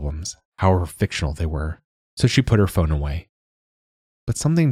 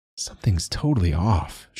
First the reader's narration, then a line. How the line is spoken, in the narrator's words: she muttered